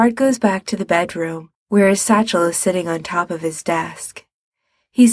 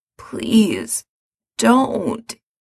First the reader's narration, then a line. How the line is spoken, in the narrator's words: he says hoarsely